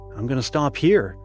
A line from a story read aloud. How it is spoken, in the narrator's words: answered the boy called Shivers, in a very forlorn tone